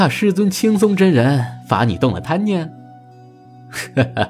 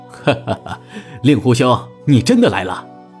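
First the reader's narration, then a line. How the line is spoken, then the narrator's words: Laughing. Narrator (Chinese): 传来了一阵笑声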